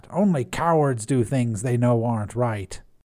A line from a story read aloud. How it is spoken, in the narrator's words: spat